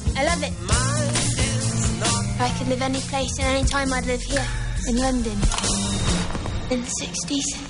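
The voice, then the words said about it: British accent. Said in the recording (Catalan): “Britànica, eh? Quin accent.”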